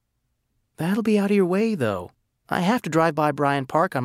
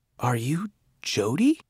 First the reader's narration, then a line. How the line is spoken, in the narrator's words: I whispered